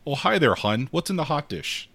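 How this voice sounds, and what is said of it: Put-on Midwestern American accent. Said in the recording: “They actually have a Midwestern accent when they do this.”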